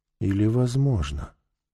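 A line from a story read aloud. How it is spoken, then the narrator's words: Quiet serious question. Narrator (Russian): тихо и серьезно спросила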